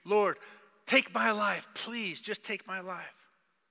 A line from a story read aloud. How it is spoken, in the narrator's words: You can't take it anymore, and you just scream